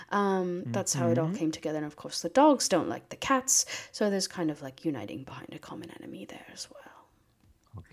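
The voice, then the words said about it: Affected put-on British accent. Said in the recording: “I've been meaning to ask about the accent... It's an affectation. It's not a real British accent. It's just something I've put on... why I had a British accent”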